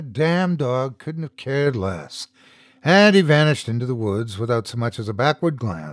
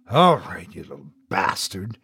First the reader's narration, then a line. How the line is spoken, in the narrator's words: murmured